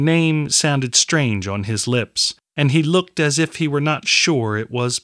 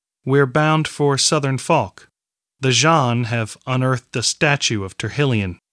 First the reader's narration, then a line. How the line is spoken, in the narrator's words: she said